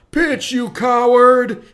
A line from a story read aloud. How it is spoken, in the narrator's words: someone yell